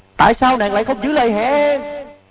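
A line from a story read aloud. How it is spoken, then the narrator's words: Anguished despairing scream. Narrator (Vietnamese): Tiếng thét đầy bi thương, tuyệt vọng, khổ đau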